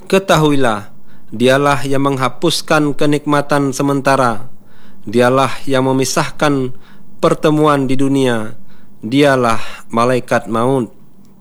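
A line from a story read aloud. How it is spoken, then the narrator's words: Plain. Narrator (Indonesian): kata Rasulullah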